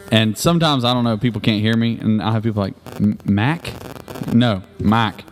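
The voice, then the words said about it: Slight Southern accent. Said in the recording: “I got a little bit of a southern accent”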